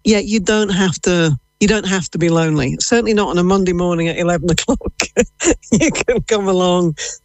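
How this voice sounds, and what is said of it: English accent. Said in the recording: “Based off your accent, I wonder, were you maybe born in England?”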